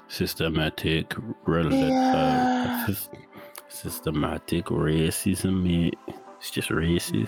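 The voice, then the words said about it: Odd put-on accent. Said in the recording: “What the fuck was that accent?”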